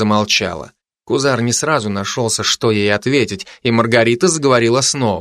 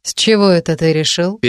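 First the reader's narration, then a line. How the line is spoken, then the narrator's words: Impassive interruption. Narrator (Russian): перебила Маргарита бесстрастным голосом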